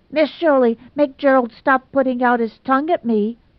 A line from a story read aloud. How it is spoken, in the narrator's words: she demanded fiercely